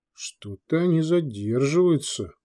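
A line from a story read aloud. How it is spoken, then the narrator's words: Grumble. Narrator (Russian): пробурчал Дитер Бруджа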